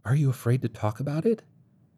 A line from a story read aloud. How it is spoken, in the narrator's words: Hanbury asked quietly